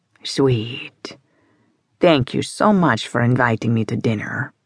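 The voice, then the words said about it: Russian-British accent. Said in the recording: “a perfectly distinctive Russian-British accent”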